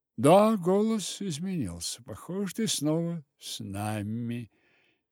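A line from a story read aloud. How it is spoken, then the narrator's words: Uncertain. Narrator (Russian): неуверенно кивнула Ксюша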